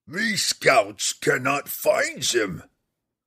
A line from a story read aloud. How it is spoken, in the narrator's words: Grawl roared, the orc king